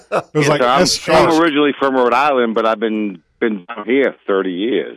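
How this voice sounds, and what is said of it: Rhode Island accent. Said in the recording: “you still got the accent ... you still got your accent, S-H-A-W-K, shock.”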